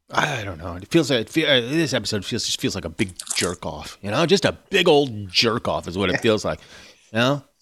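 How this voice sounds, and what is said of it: Jim Gaffigan impression. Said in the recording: “You're very good at Jim Gaffigan impersonation.”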